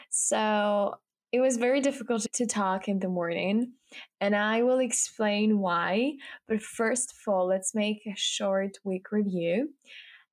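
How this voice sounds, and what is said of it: Voice sounds weird and different. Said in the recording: “you can hear my voice sounds a little bit weird and a little bit different”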